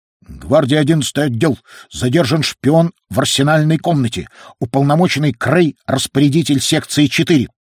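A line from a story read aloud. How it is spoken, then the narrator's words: Clipped metallic voice. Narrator (Russian): отчеканил копьеносец металлическим голосом старинного фонографа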